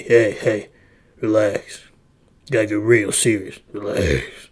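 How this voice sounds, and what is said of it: Deep, lowered serious voice. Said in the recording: “deep voice”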